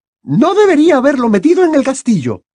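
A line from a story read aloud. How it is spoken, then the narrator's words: Teacher shouting. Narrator (Spanish): gritó la profesora McGonagall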